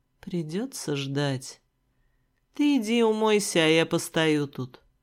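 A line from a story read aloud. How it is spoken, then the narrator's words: Spoken close against lips. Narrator (Russian): сказал мне Рыжик прямо в губы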